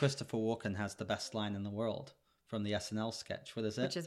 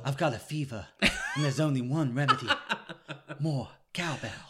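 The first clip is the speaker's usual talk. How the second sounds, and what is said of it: Imitates another person's voice. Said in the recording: “I can't do a very good Christopher Walken impression.”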